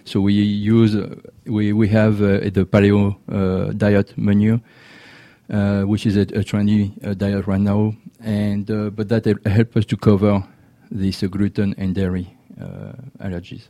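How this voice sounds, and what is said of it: French accent in English. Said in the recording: “I hear a French accent”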